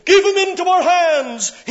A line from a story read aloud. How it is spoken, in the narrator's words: here they cried